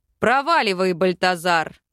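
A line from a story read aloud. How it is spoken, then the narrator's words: Two voices barking in unison. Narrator (Russian): Хором рявкнули оба мужа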